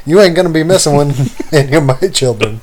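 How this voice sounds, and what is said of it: Impression of Michael Scott's voice. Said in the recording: “I'm going to try to do my best impression”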